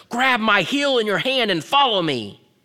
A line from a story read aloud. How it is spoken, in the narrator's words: Dad shouted above the waterfalls with real anger